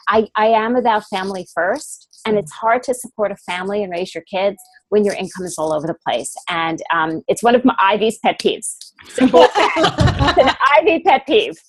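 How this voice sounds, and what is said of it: New York accent. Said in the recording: “said in a true New York way ... with a true New York accent”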